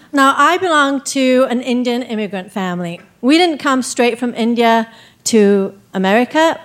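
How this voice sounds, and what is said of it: English accent. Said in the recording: “to England, where I got my accent”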